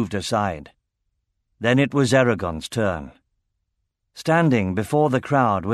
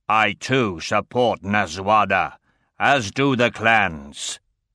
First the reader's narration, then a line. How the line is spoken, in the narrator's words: Hrothgar stated gruffly